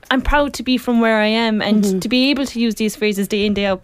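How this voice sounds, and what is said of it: Irish Kerry accent. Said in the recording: “maybe Kerry people and Irish people as well ... she said, oh my God, I love your accent so much”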